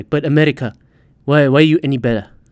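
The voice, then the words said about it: Put-on foreign accent. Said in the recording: “Why am I doing a fucking accent doing this?”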